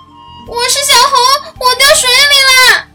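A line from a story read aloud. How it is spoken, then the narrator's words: Loud answer. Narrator (Chinese): 他大声回答道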